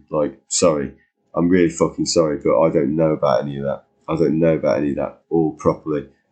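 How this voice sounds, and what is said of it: English accent. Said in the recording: “you may hear an English accent”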